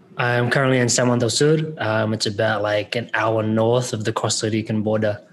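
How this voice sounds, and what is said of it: Australian-New Zealand accent. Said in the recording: “if you guys can detect that accent there, he's coming to Nicaragua by way of Sydney, Australia, and then originally in New Zealand ... My accent goes between Australian and New Zealand.”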